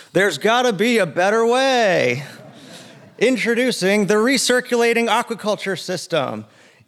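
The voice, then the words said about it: Infomercial announcer voice. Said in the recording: “my infomercial impression”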